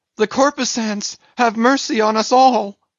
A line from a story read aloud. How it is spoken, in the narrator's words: immediately shifting his tone, he cried